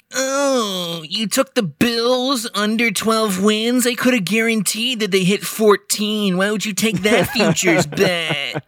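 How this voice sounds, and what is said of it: Mocking impression of an annoying guy. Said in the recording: “do an impression ... the most annoying guy by week 15 of the NFL season”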